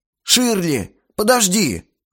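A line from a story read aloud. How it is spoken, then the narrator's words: Exclamation. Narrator (Russian): воскликнул Макс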